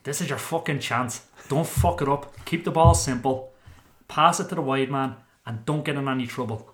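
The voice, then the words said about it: Imitates another person's accent. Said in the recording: “will I do an Ardy accent? Will I try an Ardy accent? ... That just sounded like you just said it. ... A good accent.”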